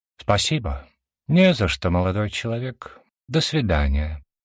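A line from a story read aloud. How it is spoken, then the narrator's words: Polite, calm reply. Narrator (Russian): вежливо и спокойно ответил Ариллах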